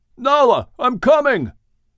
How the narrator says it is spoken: Shem yelled back

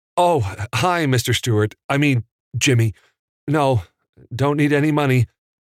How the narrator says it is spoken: Evan stammered

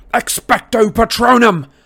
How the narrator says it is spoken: cried

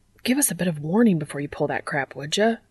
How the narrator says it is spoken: Dean spat at Jack as he shuddered

